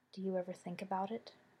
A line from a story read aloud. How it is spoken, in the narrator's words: Remus whispered